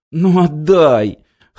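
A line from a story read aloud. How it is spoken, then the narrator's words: Whining, giving in. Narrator (Russian): хныкал Глеб, сдаваясь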